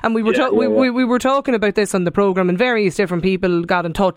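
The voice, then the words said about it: Strong regional accent. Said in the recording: “people maybe with a strong regional accent. Sure, I have one myself”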